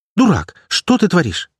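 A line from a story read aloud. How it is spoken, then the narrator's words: Breathless healer exclaiming. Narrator (Russian): воскликнула подбежавшая знахарка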